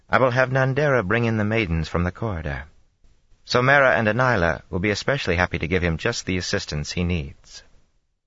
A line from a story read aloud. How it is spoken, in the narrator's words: Amis said flatly